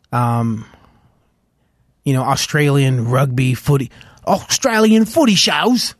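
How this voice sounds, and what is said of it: Bad imitation Australian accent. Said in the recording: “That was a horrible Australian accent again.”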